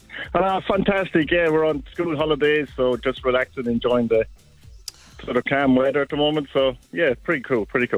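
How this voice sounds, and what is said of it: Irish accent. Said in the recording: “you know I love an Irish accent.”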